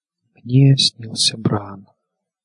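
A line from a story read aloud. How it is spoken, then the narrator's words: Whisper. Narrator (Russian): шепнула Санса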